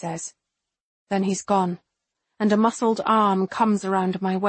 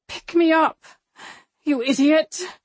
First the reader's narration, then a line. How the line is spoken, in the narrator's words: I gasp